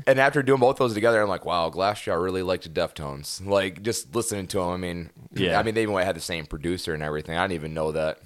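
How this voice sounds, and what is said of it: Slightly raspy voice. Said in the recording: “That's why I sound a little raspy.”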